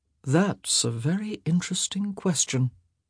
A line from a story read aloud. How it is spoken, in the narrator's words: he murmured